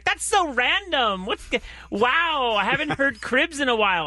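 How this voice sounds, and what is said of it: Impression of a young woman. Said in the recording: “I like your impression though... That's everyone I dated in my 20s.”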